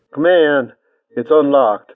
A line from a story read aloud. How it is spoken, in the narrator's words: A muffled voice called out